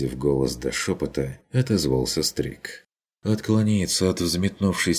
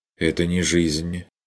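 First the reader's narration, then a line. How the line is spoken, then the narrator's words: Dry objection. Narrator (Russian): возразил он сухо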